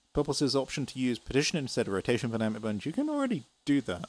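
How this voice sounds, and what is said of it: British accent. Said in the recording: “love your accent. Are you British? Yeah, I'm British.”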